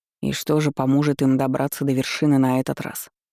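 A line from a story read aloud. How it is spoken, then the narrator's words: Plain. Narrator (Russian): спросил у меня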